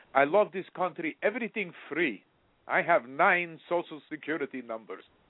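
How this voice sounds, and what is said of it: Put-on Russian accent. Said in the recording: “I use a Russian accent”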